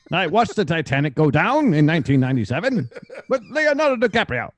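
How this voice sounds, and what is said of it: Put-on transatlantic accent. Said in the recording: “It's time for the transatlantic accent ... With this accent, I can sound like an educated man ... Transatlantic accent.”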